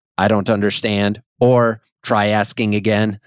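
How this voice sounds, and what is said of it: Robotic chatbot voice. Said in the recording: “That's my chatbot robot voice”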